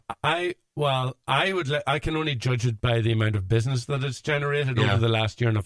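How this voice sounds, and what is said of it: Irish accent. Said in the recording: “your very beguiling Irish accent”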